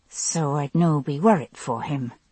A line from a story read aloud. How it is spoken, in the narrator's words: I muttered under my breath